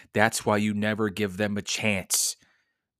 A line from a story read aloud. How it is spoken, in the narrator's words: thought bitterly